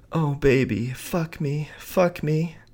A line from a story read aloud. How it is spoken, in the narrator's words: said in between her loud moans of pleasure